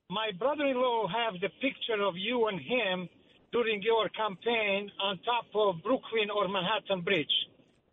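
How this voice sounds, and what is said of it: Slight Albanian accent. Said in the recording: “a slight Italian accent? ... No, Albanian.”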